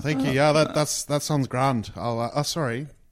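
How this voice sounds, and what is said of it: Irish-sounding accent. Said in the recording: “I've been in Ireland for a bit. I think I picked up an accent.”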